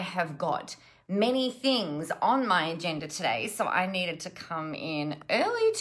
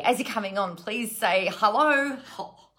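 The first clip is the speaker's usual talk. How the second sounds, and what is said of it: Odd put-on accent, like an advert character. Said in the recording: “I don't know what was with that accent. ... I sound like Frank from that National Tiles ... He sounds like he's got a very, very obvious and specific voice.”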